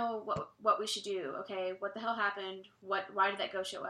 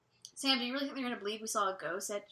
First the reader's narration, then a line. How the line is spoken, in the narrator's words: She said angrily